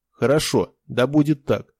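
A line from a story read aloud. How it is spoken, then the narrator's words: Cold reply. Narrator (Russian): холодно ответил мастер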